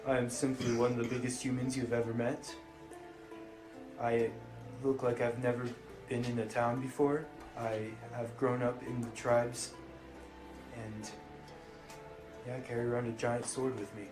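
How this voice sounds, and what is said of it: Put-on character voice. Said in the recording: “This is my character voice.”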